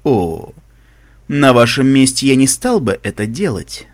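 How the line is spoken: Calm. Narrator (Russian): сказал красный глаз спокойно

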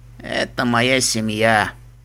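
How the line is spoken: Dull, muffled. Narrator (Russian): глухо сказал он

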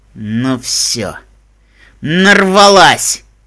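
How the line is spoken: Growl. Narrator (Russian): прорычала Вендер

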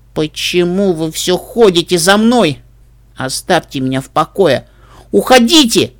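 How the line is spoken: Growling creature. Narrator (Russian): Существо зарычало

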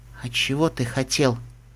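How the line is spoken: Quiet question, pony. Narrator (Russian): тихо спросила поняша

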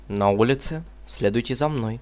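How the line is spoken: Quiet. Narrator (Russian): тихонько сказала она

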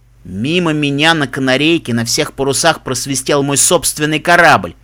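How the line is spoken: Good-natured snort. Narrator (Russian): фыркнул Себастьян беззлобно

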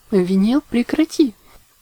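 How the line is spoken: Sleepy giggling. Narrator (Russian): Не просыпаясь, хихикала Октавия

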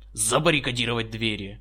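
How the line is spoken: Barking general. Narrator (Russian): гаркнул генерал

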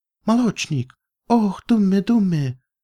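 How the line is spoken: Sudden cry. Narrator (Russian): вскрикнула она

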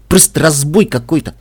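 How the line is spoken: Grumbling. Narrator (Russian): проворчал он

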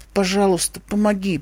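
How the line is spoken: Mumbling. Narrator (Russian): пробормотала она

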